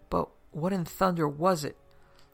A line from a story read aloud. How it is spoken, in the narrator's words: one of the policemen demanded irritably